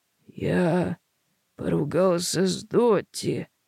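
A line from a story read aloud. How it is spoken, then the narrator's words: Mutter. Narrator (Russian): бормочет он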